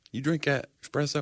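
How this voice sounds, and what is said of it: Put-on southern accent. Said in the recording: “Do you go into that southern accent when you say it?”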